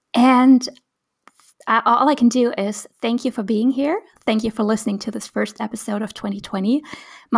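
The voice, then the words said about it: Slightly raw voice. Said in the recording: “My voice is still kind of like a bit raw because I was a bit sick.”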